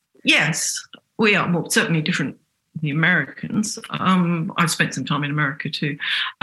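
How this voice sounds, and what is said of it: English accent. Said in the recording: “I haven't got rid of my English accent. I can't do that.”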